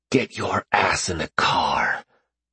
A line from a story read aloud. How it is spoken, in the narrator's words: he whispered, his breath foul and hot in her ear